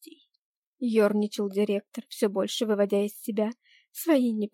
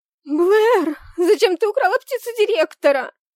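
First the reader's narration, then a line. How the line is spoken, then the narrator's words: Panicked shriek. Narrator (Russian): Завизжала Кэсси в панике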